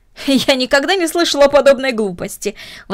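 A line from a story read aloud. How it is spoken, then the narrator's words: Exclaimed. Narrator (Russian): воскликнула мисс Дорнер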